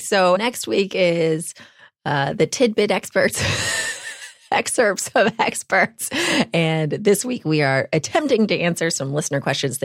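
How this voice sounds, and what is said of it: Congested voice from a cold. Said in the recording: “And I have a cold.”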